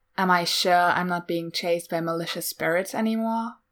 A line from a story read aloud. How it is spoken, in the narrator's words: asks sarcastically